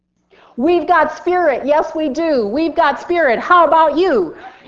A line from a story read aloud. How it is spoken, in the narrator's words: yell that across the field